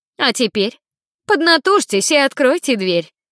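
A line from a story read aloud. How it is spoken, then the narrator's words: Cheerful, brisk. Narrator (Russian): бодро сказала Жанна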